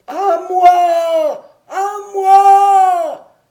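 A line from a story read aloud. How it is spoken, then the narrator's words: Voice crying out. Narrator (French): criait cette voix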